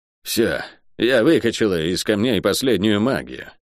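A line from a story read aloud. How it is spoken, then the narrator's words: Tired. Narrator (Russian): устало сказала проклятая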